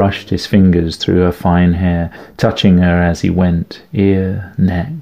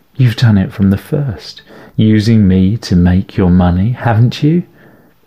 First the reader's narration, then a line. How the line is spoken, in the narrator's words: He chuckled sadly